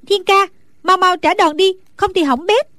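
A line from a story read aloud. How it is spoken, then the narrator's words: Anxious woman crying out. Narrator (Vietnamese): Nàng hồi hộp lo lắng, bèn la lên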